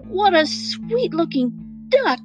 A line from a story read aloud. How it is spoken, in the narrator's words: exclaimed Regina